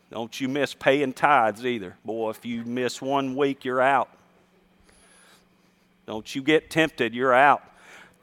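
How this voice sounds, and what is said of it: Sarcastic mock-stern preaching. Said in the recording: “I hope you know I'm kidding ... I'm being sarcastic”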